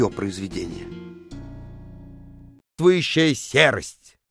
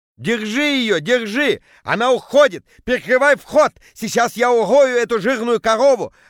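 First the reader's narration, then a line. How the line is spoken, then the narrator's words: Yelling. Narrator (Russian): орал Петя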